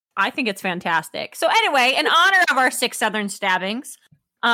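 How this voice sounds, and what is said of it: Usual voice. Nothing is said of it.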